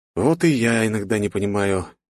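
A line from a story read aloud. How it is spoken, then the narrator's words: Even sadder sigh. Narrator (Russian): еще грустнее вздохнул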